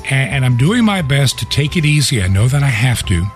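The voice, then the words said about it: Weak, strained voice. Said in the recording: “my voice is still a little bit weak, but it is a lot stronger than it was a week ago... as I record the radio show, it gets a little bit weaker”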